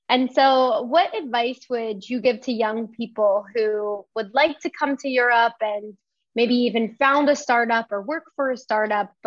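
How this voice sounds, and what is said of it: American English accent. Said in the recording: “can't tell from my accent, from the U.S.”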